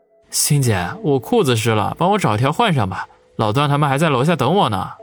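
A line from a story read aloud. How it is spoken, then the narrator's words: Chuckling. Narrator (Chinese): 王宇呵呵一笑，说道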